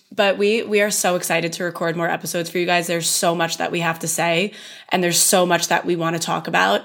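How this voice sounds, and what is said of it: Hoarse, strained voice. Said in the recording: “I'm losing my voice, you guys. I've lost it a couple times this weekend”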